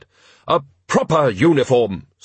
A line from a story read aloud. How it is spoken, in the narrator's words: snapped the woman